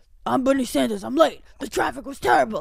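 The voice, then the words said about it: Old New York man impression. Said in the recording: “my Bernie Sanders impression ... pretty good ... an old New York, like, gym teacher”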